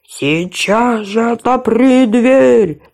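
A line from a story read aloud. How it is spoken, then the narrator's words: Wolf's growl. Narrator (Russian): прорычал опять волк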